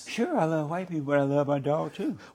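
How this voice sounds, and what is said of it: High-pitched mocking imitation. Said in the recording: “do my voice so high like that”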